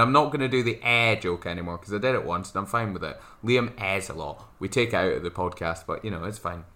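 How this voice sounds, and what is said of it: Usual voice. Nothing is said of it.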